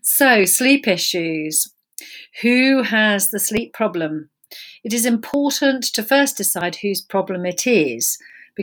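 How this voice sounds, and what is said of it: Flat, monotonous speaking voice. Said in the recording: “my voice is very monotonous”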